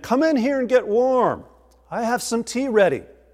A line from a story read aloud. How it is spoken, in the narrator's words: Martin shouted to the old man